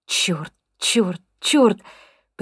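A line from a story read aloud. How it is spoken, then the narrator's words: Whispered lament. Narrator (Russian): причитает шепотом Аманда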